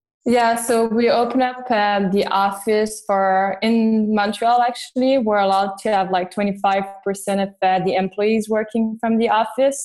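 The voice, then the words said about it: Montreal accent. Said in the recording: “I'm in Montreal, actually... That's where my accent is coming from as well.”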